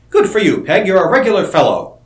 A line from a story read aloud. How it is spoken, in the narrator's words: Seaton exclaimed